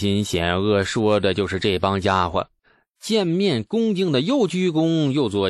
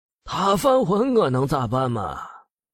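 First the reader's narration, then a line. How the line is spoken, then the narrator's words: Heavy sigh. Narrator (Chinese): 李道正又沉沉叹息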